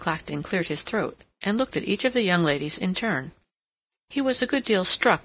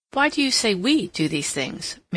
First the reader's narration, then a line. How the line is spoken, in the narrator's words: Mary interposed rather sharply